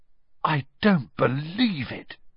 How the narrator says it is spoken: Ron said in a stunned voice

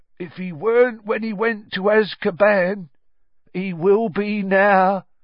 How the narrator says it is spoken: said Ern in his slow voice

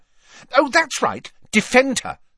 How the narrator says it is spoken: snapped Ginny

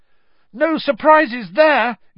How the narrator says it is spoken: yelled Ron, as a storm of applause and cheering swept the hall

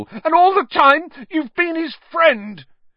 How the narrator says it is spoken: he shouted at Lupin, his voice wavering out of control

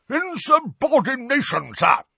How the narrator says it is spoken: roared a corpulent, red-nosed wizard

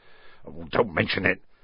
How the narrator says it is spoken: said Hagrid gruffly

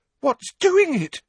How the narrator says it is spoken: Parvati demanded in a terrified voice

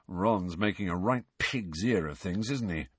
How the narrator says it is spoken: muttered George

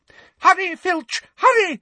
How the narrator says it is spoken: shrieked Umbridge

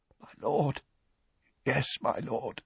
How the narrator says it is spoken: gasped Rookwood, his voice hoarse with relief

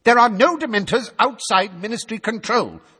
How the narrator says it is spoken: snapped Fudge, who had turned brick red

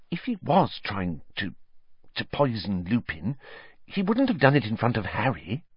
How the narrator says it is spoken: Hermione dropped her voice, glancing nervously

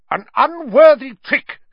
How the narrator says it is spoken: was shouting

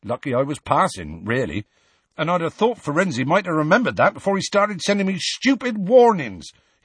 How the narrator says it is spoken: he added hotly and unexpectedly

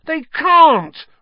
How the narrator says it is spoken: Ron howled

